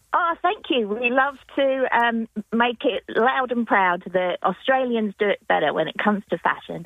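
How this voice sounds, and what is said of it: English accent. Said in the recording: “I may have an English accent”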